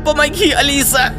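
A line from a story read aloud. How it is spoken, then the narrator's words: Yelling. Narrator (Russian): завопил парень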